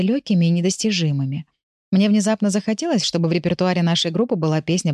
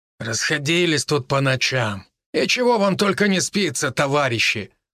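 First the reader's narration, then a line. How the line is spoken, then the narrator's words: Guard grumbling. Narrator (Russian): проворчал охранник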